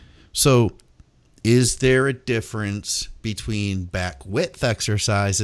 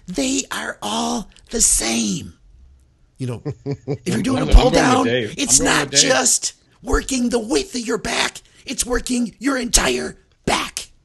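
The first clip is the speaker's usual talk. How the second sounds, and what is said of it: Impression of Dave Pulcinella. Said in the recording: “I'll, I'll, I'll do my best impression of Dave.”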